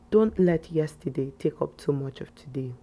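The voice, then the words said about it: Serious, solemn voice. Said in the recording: “I'm going to use my serious voice.”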